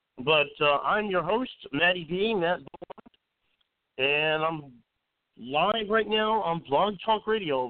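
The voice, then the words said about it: Scratchy voice, head cold. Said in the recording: “my voice is a little scratchy today. I got a lot of head cold going on here.”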